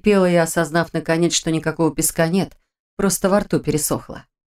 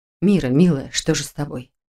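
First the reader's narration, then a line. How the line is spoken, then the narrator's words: Distant mutter. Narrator (Russian): пробормотала Ара где-то далеко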